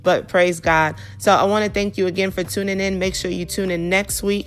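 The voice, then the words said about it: Weak, under-the-weather voice. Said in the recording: “my voice is a little bit under the weather ... you know that my voice is a little bit stronger”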